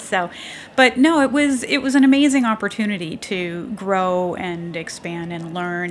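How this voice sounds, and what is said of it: Canadian accent. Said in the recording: “That sounds like a Canadian accent, though.”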